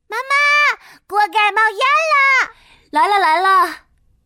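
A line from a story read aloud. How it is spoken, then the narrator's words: Urgent loud shout. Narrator (Chinese): 我赶紧大喊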